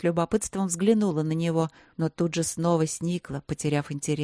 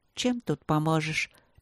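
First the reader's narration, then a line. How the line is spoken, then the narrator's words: Wry mutter. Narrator (Russian): пробормотала она, кривя губы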